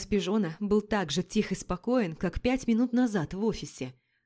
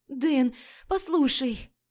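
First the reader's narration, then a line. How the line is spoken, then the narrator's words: Pleading female voice. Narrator (Russian): взмолился женский голос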